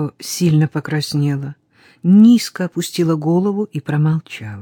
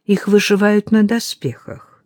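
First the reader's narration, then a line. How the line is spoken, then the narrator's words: Calm. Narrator (Russian): спокойно произнесла Мидори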